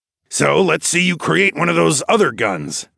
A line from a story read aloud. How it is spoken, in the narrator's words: Darwin snorted